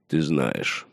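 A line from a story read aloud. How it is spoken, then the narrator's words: Gruff mutter. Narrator (Russian): буркнул Мормонт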